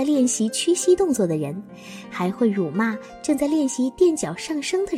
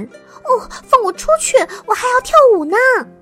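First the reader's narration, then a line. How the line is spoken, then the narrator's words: Shouting. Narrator (Chinese): 他的喊声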